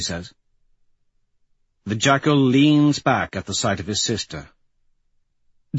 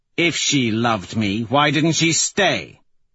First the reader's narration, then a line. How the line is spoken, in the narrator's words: He says sharply